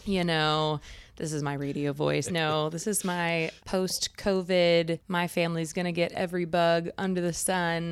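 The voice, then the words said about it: Raspy, hoarse voice. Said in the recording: “You're sounding a little raspy here. ... Sounding a little raspy”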